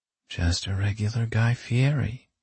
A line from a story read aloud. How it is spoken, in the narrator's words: Penny mumbled